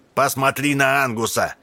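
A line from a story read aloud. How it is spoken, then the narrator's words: Shout. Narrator (Russian): кричал он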